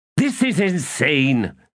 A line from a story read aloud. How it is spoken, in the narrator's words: snapped Shurkalal